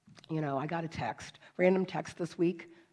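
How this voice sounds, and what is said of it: Hoarse, weakened voice. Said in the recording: “my voice is gone”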